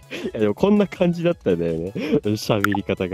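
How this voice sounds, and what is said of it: Usual voice. Nothing is said of it.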